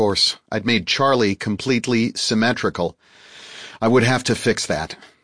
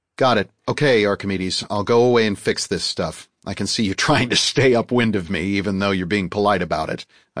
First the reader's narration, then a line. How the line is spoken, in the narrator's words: I chuckled